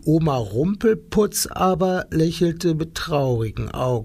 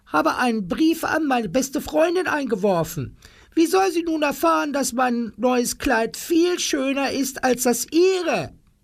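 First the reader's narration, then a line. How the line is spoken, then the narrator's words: Screaming. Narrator (German): schrie Frau Tingel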